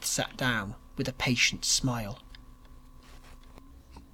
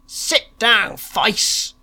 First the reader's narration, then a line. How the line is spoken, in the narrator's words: roared the pleasure seekers